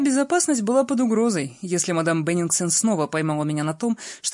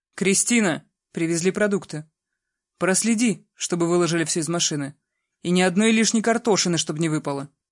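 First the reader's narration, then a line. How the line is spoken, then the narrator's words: Stern. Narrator (Russian): строго сказала мадам Беннингсон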